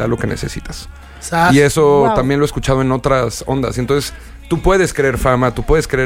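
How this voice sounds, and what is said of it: Usual voice. Nothing is said of it.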